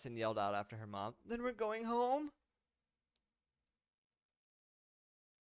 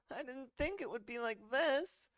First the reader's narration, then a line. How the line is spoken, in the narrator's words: Allison begged